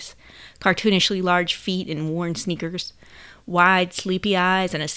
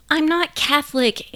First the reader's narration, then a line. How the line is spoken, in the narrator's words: Anne Marie whined